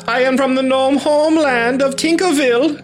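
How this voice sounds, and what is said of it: Put-on character accent. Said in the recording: “Interesting accent you have.”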